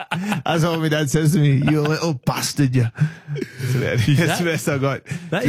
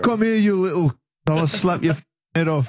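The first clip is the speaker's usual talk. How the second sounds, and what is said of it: Put-on English accent, convincing. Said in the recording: “So do you do a good English accent then? ... that is spot on. You nailed that.”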